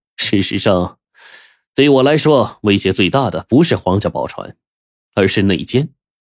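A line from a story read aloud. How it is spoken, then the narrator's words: Laughing. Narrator (Chinese): 王直笑道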